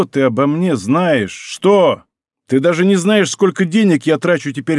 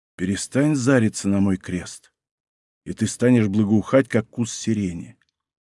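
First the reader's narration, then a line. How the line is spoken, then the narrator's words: Very quiet. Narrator (Russian): совсем тихо промолвил Мартин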